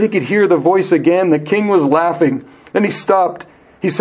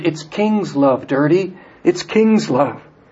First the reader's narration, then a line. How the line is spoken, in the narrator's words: Mercy whispered